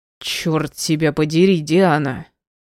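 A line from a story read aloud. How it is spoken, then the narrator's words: Growl. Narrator (Russian): рыкнул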